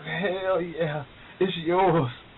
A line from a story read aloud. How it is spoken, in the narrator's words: She moans and says